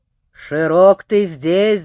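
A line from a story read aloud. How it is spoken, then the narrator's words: Growl. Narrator (Russian): зарычал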